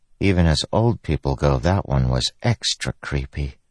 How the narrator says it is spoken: she said softly

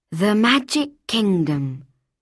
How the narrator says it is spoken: he breathed

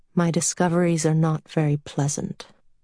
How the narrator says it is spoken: Murray said in a low voice

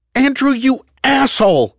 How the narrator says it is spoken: She screamed in his ear

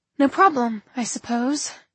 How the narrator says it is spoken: she sighed

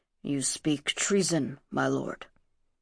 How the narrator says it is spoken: In a voice equally low, he muttered

